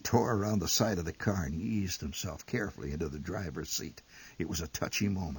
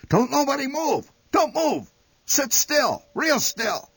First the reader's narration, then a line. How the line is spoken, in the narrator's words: Instantly, the old man shouted